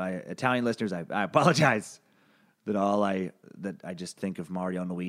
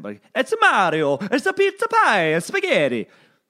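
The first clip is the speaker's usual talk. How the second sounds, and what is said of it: Cartoonish Italian accent. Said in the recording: “Italian accent ... horribly offensive, like just cartoonish Italian accent”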